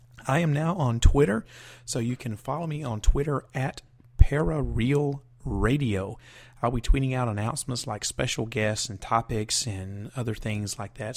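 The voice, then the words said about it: Hoarse, weakened voice. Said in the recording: “I lost my voice,”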